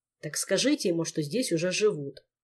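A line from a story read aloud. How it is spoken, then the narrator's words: Grumbling. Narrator (Russian): проворчал Кантор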